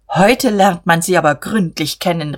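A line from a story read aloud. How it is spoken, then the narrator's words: Shouting. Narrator (German): rief er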